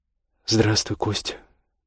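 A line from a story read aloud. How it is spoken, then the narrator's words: Mumbling. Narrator (Russian): пробормотала Ольга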